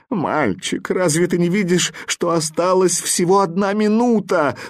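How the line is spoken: Tearful question. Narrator (Russian): сквозь слезы спрашивал вопросительный

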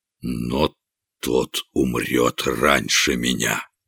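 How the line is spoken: Barely audible, malicious king. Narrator (Russian): злобное пламя сверкнуло в глазах короля, и он проговорил еле слышно

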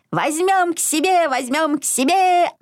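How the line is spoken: Excited piglet yelling. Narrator (Russian): орал поросенок Изюмка

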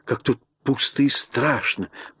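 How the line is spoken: Whispered. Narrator (Russian): прошептала она

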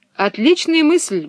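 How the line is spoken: Exclamation. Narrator (Russian): воскликнул капитан

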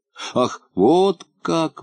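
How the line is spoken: Sigh. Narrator (Russian): вздохнул Полботинка

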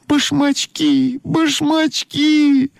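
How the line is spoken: Shouting. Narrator (Russian): закричала Ойка

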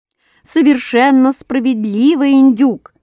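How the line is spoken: Loud shout in unison. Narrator (Russian): крикнули все разом так громко

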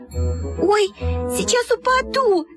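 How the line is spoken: Squeal. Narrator (Russian): запищала Люська

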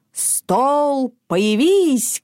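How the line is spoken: Shouted. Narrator (Russian): крикнул он

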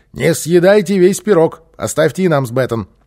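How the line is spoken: Shouted. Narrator (Russian): Босса крикнул

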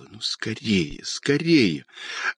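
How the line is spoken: Impatient whisper. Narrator (Russian): Она нетерпеливо шептала

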